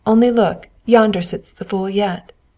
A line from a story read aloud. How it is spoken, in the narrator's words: They laughed as they passed and said